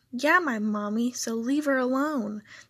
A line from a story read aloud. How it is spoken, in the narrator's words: the girl yelled